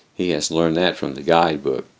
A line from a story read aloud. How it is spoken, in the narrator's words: Louise declares bitterly